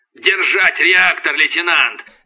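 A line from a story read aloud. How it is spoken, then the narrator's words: Barking. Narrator (Russian): рявкнул Касьян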